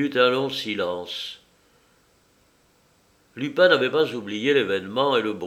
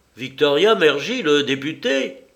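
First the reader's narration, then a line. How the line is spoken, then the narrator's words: Exclaiming. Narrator (French): s'écria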